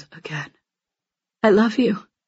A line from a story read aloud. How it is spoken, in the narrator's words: He closes his eyes and whispers